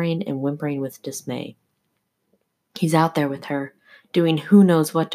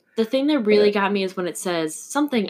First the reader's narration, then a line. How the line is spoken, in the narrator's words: I barked